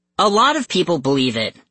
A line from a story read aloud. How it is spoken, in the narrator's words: I snapped